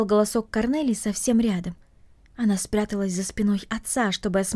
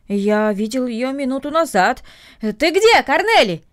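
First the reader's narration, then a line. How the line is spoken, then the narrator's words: Shout. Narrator (Russian): крикнул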